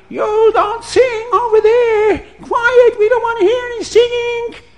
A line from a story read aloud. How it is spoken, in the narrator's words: the neighbors would scream